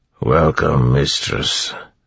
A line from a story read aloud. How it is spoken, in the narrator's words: the Chondra said in a growling, muffled voice